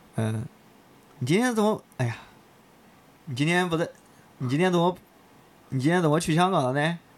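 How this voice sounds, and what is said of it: Imitated Hebei accent. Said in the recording (Chinese): “河北腔怎么说？ ... 如果你让你模模仿一下你妈说问你，你怎么讲？”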